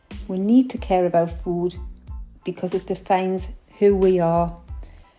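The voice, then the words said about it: Geordie accent. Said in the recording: “because of my Geordie accent”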